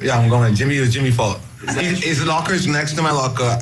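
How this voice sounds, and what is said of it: Fast speech, slight Bahamian accent. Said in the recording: “The way he just talks is hilarious. It's so fast. It's so obvious he's from the Bahamas. He's got a little bit of accent there.”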